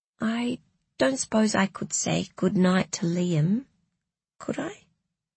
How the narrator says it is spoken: said Felicity in a small, meek voice that didn't suit her

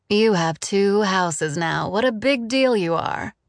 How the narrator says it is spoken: she said in a joking tone

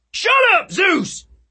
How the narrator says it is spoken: yelled

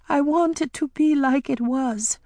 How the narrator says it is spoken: she sobbed

